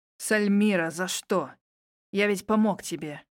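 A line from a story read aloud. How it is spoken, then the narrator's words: Wheeze. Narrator (Russian): Прохрипел Лейт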